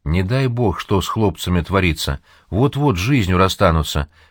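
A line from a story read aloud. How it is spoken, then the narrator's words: Sad. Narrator (Russian): печально говорит Никитин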